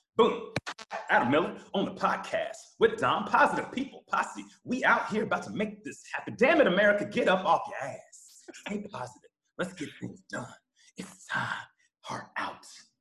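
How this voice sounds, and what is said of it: Imitates another person's voice. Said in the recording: “do a Kevin Hart impersonation”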